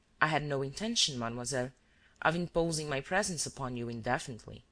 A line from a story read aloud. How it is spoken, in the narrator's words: said Shears as calmly as herself